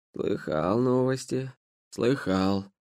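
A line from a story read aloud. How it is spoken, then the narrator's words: Creaky rasping voice. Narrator (Russian): проскрипел босой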